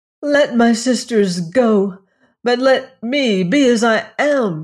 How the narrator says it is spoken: cried

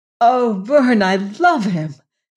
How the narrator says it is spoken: cried

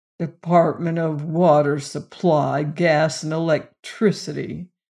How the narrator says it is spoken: sneered Peter

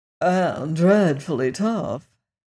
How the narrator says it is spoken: added the Hungry Tiger in a sad voice

